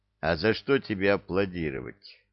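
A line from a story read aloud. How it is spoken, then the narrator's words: Gloomy question. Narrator (Russian): мрачно спросил он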